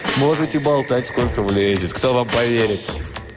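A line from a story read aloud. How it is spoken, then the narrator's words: Satisfied chuckle. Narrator (Russian): Он удовлетворенно хохотнул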